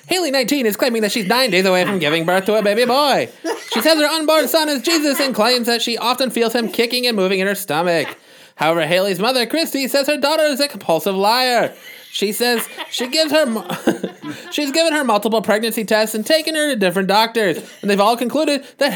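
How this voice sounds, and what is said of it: Old-timey announcer voice. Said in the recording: “read this story in the voice that you're using for... comic theater ... The announcer voice ... The old-timey announcer?”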